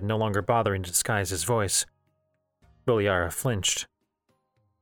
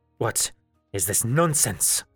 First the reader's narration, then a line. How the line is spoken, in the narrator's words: Bilyara spat